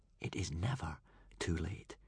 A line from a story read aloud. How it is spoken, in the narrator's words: whispered to himself